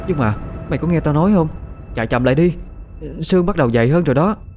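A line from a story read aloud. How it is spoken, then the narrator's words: Increasingly fearful voice. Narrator (Vietnamese): Khoanh liền nói với giọng lo sợ hơn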